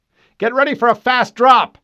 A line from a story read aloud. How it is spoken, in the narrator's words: Fred shouted